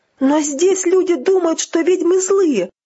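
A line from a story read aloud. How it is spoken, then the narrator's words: Exclaiming. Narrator (Russian): воскликнула Тиффани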